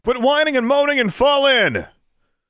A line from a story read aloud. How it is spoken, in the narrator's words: Mage Sergeant Major Strangeland bellowed